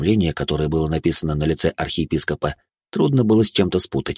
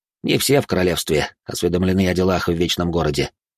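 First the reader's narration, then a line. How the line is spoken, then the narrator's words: Snorting, amused. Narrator (Russian): хмыкнул Хуан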